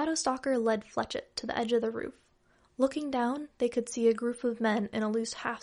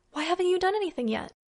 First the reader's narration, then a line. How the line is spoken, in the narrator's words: Fletchett gasped